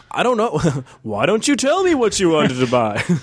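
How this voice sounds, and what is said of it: Kramer's movie phone voice. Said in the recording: “Do the movie voice. ... That was Kramer's movie phone voice, not the movie voice itself, but still something.”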